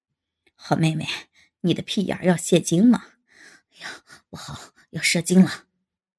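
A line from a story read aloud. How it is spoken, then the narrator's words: Panting laugh. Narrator (Chinese): 吴亮 气喘地笑道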